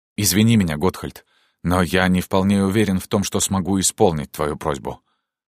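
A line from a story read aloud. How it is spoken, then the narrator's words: Slightly trembling voice. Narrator (Russian): промолвил принц слегка дрогнувшим голосом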